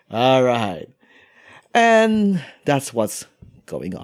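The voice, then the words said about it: Put-on British accent. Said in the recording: “What happened to the British accent?”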